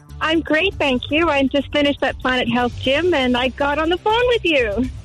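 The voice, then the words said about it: Canadian accent. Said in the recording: “You've got a bit of an accent there ... I'm Canadian”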